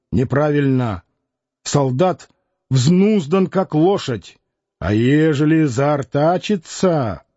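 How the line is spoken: Stern, brave voice. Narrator (Russian): Коротконогий произнес строго, храбрым голосом

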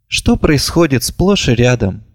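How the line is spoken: Gloomy. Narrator (Russian): мрачно добавила она

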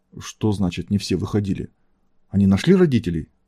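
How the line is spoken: Trembling question. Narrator (Russian): дрожащим голосом спросила Анна

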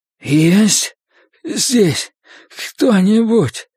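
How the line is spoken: Hoarse rasp. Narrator (Russian): прохрипел мусорный бак

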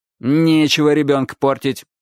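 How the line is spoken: Stern interruption. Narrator (Russian): строго перебил его Чернявый

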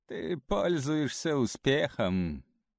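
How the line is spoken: Laughing. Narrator (Russian): рассмеялся Лео

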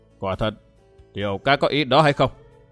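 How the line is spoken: Stern old man asking. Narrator (Vietnamese): Lão già râu thưa trầm gương mặt nghiêm giọng hỏi

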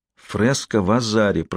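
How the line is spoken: Whispering, female. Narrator (Russian): прошептала Сиена

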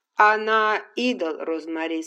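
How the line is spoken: Plain. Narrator (Russian): сказал Ретт

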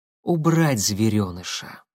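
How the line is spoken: Calm reply. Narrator (Russian): спокойно ответил Корнилов

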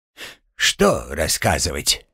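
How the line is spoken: Grumbled. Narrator (Russian): буркнул Гремлун

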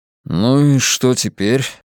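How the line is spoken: Gloomy inquiry. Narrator (Russian): мрачно осведомился Хантон

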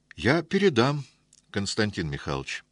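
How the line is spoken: Calm answer. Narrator (Russian): уже спокойно ответил Доценко

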